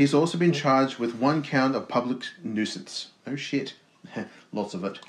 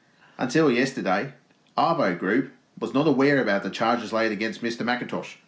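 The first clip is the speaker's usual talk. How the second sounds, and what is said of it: Put-on Australian accent. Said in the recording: “I'll do the voice. Would you like me to do an Australian accent?”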